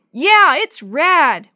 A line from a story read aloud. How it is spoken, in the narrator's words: Willie yelled back